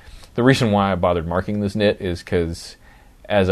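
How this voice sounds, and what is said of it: Usual voice. Nothing is said of it.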